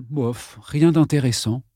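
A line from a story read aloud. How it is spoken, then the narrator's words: Murmur. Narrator (French): murmura Dwayne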